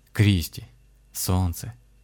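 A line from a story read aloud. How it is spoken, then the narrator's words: Quiet. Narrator (Russian): тихо заговорил Александр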